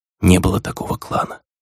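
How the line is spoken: Whisper. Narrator (Russian): прошептала Фелиция

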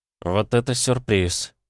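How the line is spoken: Bewildered mutter. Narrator (Russian): пробормотал Нестор растерянно

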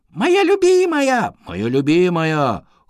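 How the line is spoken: Young mice exclaiming in chorus. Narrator (Russian): хором воскликнули мышата

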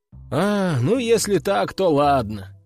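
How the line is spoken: Sighing. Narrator (Russian): вздохнул я

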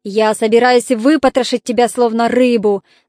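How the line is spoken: Growl. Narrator (Russian): зарычал он

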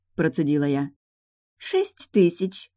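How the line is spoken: Mocking announcement. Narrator (Russian): объявила модистка насмешливо, явно планируя меня этой цифрой шокировать

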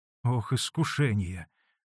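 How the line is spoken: Low voice. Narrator (Russian): вполголоса сказал Василий Борисович

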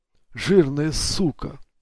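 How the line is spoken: Breathed out involuntarily. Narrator (Russian): выдохнул Ник против воли

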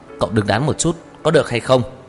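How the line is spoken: Angry. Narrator (Vietnamese): Lãnh Mặc Hàn tức giận nói

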